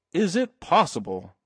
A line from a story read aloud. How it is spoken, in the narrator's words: cried Mr